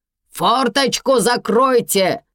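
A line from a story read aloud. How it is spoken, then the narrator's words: Loud, rude shout. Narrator (Russian): закричала Ирма громко и грубо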